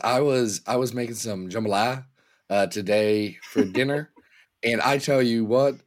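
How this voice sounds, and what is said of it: Raspy, hoarse sick voice. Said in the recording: “the sore throat adds texture to your voice. It's a sultry texture... your voice goes away, and it sounds like you chain smoke cigarettes”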